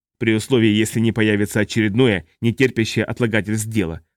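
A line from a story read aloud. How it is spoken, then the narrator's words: Growled. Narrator (Russian): прорычал Орн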